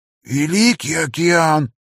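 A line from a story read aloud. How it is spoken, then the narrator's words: Hoarse rasp. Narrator (Russian): просипел он наконец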